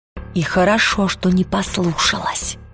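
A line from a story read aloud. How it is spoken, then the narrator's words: Whispered reply. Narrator (Russian): прошептала она в ответ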